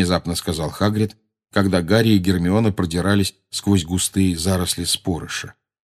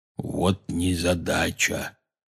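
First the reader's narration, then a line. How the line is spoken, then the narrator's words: Quiet. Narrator (Russian): тихо сказал Хагрид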